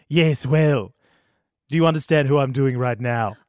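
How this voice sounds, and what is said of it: Stewie Griffin impression. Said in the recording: “Stewie Griffin.”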